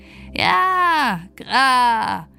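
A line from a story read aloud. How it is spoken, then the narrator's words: Bird calling. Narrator (German): rief der Vogel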